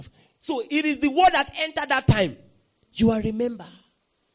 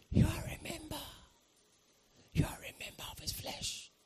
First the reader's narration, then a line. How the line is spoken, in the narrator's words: someone just whisper to me